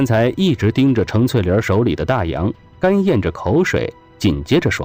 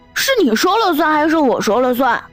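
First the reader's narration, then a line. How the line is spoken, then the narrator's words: Loud roar. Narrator (Chinese): 陶百川大吼一声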